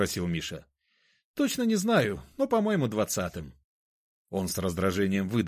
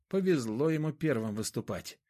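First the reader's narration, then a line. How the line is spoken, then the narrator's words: Grumbled. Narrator (Russian): буркнул Миша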